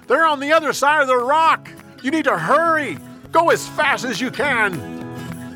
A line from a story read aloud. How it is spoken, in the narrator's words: yelled